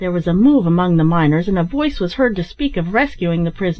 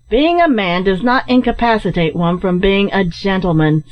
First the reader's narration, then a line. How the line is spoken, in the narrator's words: said Ned sharply, with a look of scorn